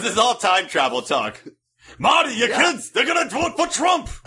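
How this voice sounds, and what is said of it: Doc Brown impression. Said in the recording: “a good Doc Brown impression? Probably not.”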